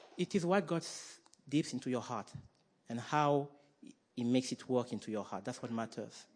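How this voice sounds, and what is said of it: Slight French accent. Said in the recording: “a bit of French accent”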